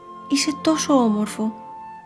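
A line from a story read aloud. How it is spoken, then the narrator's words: Whispered. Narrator (Greek): του ψιθύρισε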